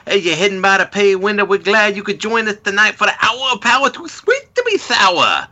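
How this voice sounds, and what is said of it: Imitates another person's voice. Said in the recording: “My bad dusty impression”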